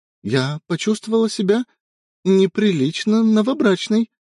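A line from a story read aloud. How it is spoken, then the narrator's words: Timid. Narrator (Russian): робко добавила Элли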